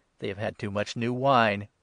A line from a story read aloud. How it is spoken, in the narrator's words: some who said with a sneer